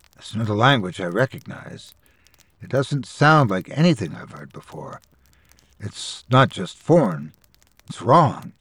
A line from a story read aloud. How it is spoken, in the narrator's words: Priya whispered